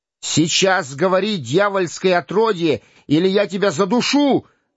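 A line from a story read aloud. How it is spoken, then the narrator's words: Furious yell. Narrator (Russian): завопил Майлз, яростно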